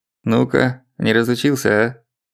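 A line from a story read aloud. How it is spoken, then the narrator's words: Pleased chuckle. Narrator (Russian): довольно хохотнул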